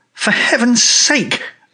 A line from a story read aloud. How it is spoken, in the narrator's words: I cried